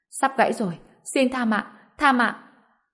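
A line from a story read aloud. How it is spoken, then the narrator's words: Pained desperate screaming. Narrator (Vietnamese): Người đàn ông liền đau đớn hét lên, sau đó quỳ xuống đất hét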